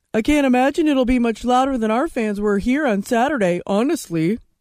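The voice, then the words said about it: Spot-on impression of Trevor Lawrence. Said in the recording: “Spot on impersonation”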